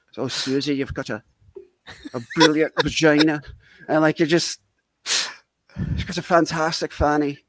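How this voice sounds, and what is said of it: Put-on Irish accent. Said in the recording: “You've got a fabulous Irish accent”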